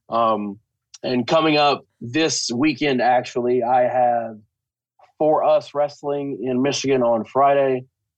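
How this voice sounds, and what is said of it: Speaks with a noticeable accent. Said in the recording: “For those of you who misunderstand through my accent.”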